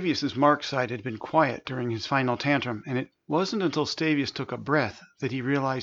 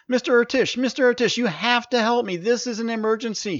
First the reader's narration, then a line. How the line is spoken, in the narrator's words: he yelled as he ran toward him